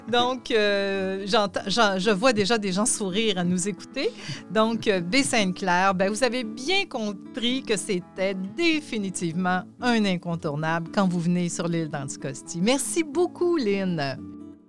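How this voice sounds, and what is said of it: Strong English accent in French. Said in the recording (French): “J'ai toujours eu un gros accent anglais”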